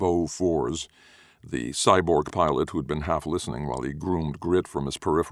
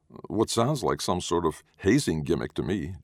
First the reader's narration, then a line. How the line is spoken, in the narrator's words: Jurgen said